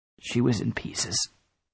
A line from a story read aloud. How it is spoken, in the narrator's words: I croaked